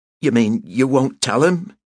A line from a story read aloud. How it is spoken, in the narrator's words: He asked eagerly